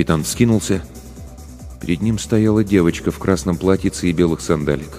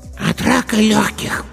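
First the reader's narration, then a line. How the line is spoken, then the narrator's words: Hoarse child's voice. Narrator (Russian): сказал хриплый детский голосок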